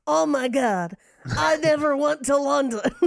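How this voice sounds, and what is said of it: Imitates another person's voice, incredulous. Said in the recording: “I wish I could do a Nick Cage impression. ... Just be incredulous about stuff. ... And do it like while talking out of the back of your mouth. ... You could go Peggy Sue Got Married, Nick Cage, and just be like”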